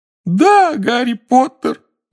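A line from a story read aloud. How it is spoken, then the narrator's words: Wailing. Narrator (Russian): взвыл Добби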